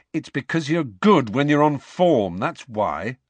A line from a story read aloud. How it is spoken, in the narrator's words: said Harry irritably